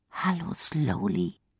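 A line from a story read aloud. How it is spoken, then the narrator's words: Quiet. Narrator (German): sagt Lisa leise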